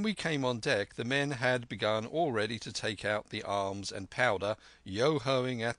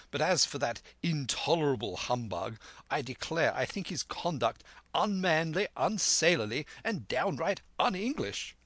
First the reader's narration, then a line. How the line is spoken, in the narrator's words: cried the squire